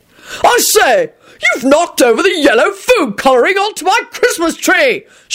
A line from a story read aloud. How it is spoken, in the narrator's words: shouted Sir Richard